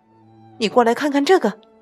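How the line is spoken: Shouting. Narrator (Chinese): 詹姆斯跑过来大叫着

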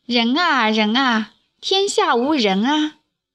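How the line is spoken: Sighing. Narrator (Chinese): 宰我叹道

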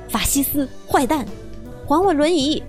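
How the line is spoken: Shouting. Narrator (Chinese): 外公的喊声

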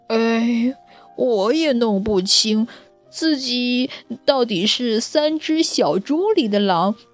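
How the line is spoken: Glum sighing wolf. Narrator (Chinese): 大灰狼哭丧着脸，叹了口气说

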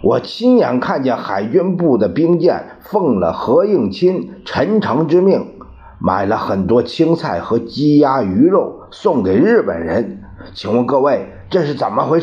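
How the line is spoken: Loud voice. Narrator (Chinese): 一个声音在角落里大声道

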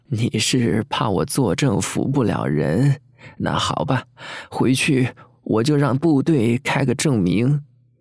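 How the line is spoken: Laughing heartily. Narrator (Chinese): 他哈哈大笑，说

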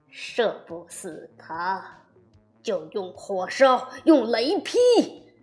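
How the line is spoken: Through gritted teeth. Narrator (Chinese): 玉帝咬牙切齿地说

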